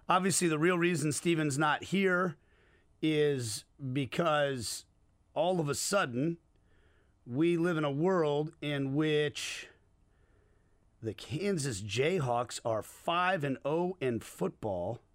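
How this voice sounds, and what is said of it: Hoarse, worn-out voice. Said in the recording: “my voice is completely shot”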